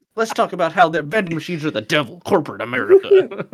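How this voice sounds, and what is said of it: Imitates another person's voice. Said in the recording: “That's a pretty good impression of me.”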